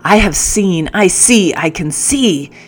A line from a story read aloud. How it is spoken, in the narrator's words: he roared